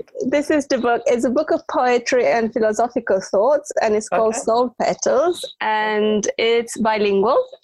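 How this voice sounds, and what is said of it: Romanian accent. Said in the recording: “Romanian ... I could tell by the accent you weren't, you know, UK born.”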